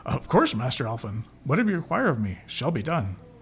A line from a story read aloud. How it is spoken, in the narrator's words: he blurted